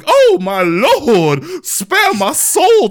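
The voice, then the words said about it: Over-dramatic frightened character voice. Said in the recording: “very over dramatic, like freaking out ... your impression ... Very spot on.”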